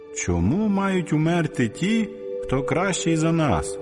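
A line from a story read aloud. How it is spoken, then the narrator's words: Distant shout. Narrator (Ukrainian): якийсь слухач крикнув звіддаля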